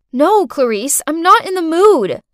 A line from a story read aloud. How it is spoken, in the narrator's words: I shouted